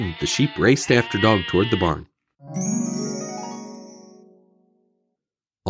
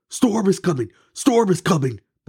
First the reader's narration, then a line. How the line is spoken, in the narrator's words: barked Dog